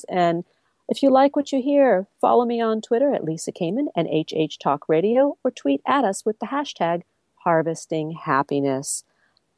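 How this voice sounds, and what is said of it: Hoarse, froggy throat. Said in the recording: “I have a frog in my throat”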